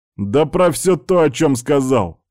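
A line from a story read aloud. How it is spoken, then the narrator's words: Barked, barely restrained. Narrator (Russian): рявкнул, с трудом сдерживаясь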